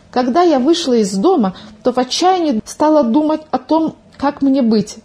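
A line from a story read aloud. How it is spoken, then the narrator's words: Agitated. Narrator (Russian): взволнованно начала свой рассказ Милка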